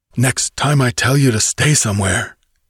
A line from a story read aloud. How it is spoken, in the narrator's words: he gasped